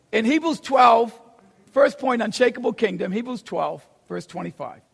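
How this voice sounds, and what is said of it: Boston accent. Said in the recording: “I have a Boston accent”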